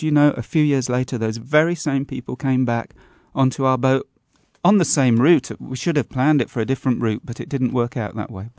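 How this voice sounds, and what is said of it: English accent. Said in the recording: “you still got your good English accent, even though you've lived in France for 20 years?”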